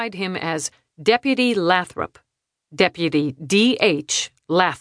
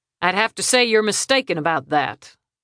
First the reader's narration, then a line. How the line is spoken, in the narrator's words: Deputy Lathrop returned, with a trace of an East Texas drawl